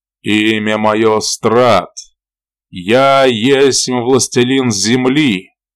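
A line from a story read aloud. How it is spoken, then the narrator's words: Loud proclamation. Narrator (Russian): объявил громко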